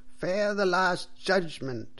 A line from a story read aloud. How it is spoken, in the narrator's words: cried the priest loudly and angrily